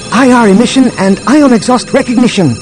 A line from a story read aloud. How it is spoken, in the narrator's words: Droma said excitedly